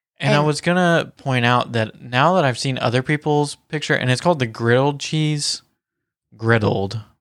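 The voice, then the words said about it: Southern accent. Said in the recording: “my southern accent got in the way”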